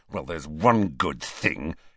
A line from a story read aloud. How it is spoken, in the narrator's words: he said savagely